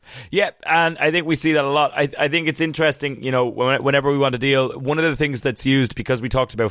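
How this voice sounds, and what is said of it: Usual voice. Nothing is said of it.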